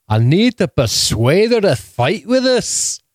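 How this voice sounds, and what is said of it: Impression of a TV character's voice. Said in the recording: “I think I got Jon Snow down ... That's the best impersonation on the internet of Jon Snow ... It's actually the worst impersonation of my life I've ever heard.”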